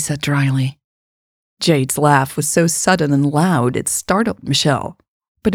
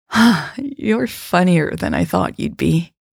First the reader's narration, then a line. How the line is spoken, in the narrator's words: Jade sighed